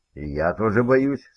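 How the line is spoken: Plain. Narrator (Russian): сказала Сьюзан

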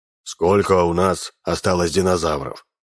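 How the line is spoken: Gloomy question. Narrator (Russian): мрачно спросил профессор

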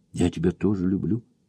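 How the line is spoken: Quiet, secretive. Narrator (Russian): ответила она тихонько, чтобы не услышала Джулия

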